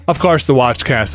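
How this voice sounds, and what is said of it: Slight Irish lilt. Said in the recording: “Ooh, I got a little Irish lilt there.”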